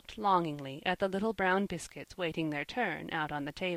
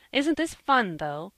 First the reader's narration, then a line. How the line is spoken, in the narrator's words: cried Jasper